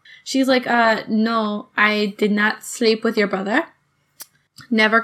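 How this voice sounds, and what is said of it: Attempted Spanish accent. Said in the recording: “I'm trying to do my best Spanish accent while tipsy ... British, okay. ... No, I was doing the uh, th- th- th- the Spanish th.”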